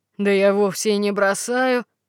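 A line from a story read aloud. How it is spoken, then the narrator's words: Giant's grumbling reply. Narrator (Russian): отвечал первый великан и стал ворчать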